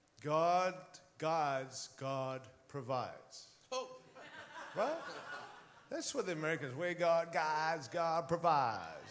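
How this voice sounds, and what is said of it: Put-on American accent. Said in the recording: “can I be American for a moment? ... With that accent too.”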